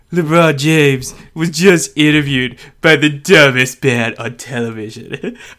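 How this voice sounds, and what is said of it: Imitates another person's voice. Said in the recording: “Should I try and do a Donald Trump impression? ... It's perfect.”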